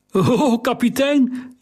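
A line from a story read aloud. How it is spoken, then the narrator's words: Unsteady voice calling. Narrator (Dutch): riep hij met onvaste stem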